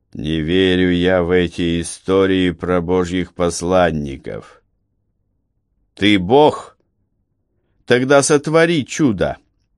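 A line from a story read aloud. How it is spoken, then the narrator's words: Muffled, hollow voice. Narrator (Russian): произнес глухо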